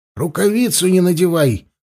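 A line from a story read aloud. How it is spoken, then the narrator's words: Shouting after someone. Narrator (Russian): крикнул Хаста ему вслед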